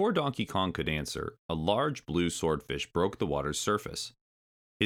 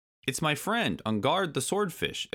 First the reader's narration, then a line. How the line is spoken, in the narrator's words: exclaimed Donkey Kong